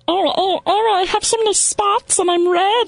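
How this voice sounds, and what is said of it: High helium-like ladybug character voice. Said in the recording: “you do that helium thing you do ... a good insect voice, right? ... like be like a ladybug”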